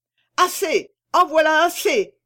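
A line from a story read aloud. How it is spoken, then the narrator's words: Shouting. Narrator (French): cria Cento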